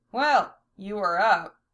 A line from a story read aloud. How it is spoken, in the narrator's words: Val chuckled